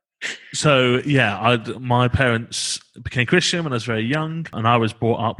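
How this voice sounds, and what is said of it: Middle-class accent. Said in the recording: “not the working class bit, as you can tell from my accent. ... You are so bougie. ... I'm powerfully middle class.”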